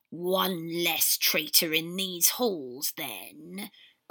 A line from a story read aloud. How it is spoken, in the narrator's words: Creature sneered